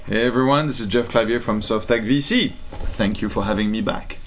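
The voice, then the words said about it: Noticeable foreign accent. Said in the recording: “people love that accent. So they keep asking, get that guy with the accent back.”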